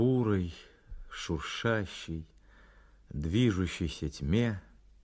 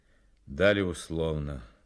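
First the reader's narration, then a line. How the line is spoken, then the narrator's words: Gloomy statement. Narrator (Russian): мрачно произнес Фонарев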